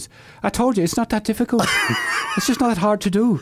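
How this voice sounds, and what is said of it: Put-on Irish accent. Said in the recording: “An Irish accent's hard to do. ... Okay, very good Irish accent, actually.”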